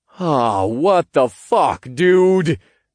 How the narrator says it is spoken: I groaned

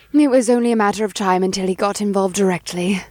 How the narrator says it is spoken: she sighed

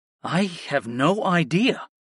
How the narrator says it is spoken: I replied in an awed tone

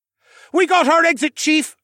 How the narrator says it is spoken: Horace yelled

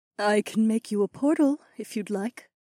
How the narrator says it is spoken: Aliona offered gently

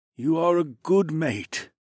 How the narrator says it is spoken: the yellow dragon rumbled

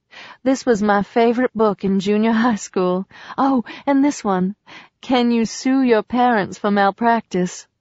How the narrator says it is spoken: Julian laughed

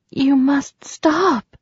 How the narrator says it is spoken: she told him at last, her voice sounding weak

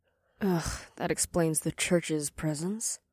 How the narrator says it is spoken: the demon woman mumbled

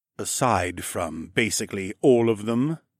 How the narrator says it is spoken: Lieutenant Virtus grumbled bitterly

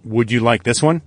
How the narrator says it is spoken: asked

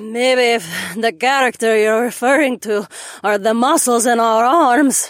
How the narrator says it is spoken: Mira panted

